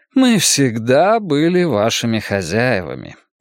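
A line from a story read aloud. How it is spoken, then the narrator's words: Patient sigh. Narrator (Russian): терпеливо вздохнул советник Альбедо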